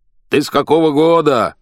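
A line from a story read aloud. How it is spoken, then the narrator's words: Yelling. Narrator (Russian): орал я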